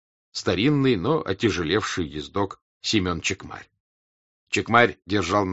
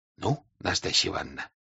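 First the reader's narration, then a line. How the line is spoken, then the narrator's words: Whispered. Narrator (Russian): шепотом, сказал граф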